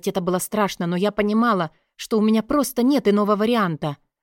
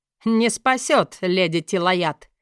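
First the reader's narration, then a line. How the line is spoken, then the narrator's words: Witch's mad laughter. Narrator (Russian): рассмеялась ведьма, и в ее смехе слышались отголоски безумия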